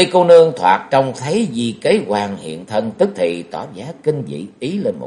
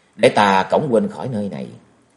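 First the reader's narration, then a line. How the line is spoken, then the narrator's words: Soft. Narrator (Vietnamese): Kế Quan ... khẽ nói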